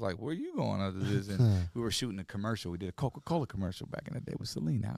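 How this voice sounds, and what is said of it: Usual voice. Nothing is said of it.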